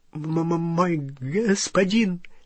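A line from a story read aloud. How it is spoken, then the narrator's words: Terrified stammering goblin. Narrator (Russian): залепетал гоблин, запинаясь и тараща черные глаза, полные ужаса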